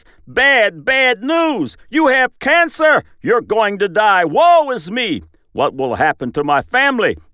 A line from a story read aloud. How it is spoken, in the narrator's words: the neuropeptide shouts